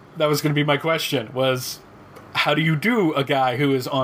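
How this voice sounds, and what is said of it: Usual voice. Nothing is said of it.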